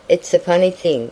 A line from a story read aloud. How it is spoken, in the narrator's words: answered